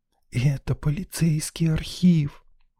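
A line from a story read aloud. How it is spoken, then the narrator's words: Reverent whisper. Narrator (Russian): благоговейно прошептала Лена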